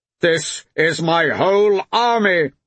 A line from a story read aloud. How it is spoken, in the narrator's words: his father shouted